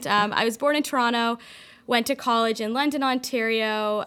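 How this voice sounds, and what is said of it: Canadian accent. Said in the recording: “I'm Canadian. ... people are probably wondering where your accent's from. ... Yes, I have an accent.”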